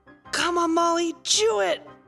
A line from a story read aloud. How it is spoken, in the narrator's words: gasp desperately in hope